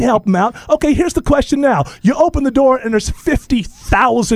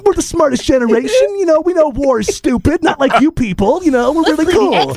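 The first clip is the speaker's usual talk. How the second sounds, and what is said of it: Mocking impression of a millennial. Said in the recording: “your millennial impression”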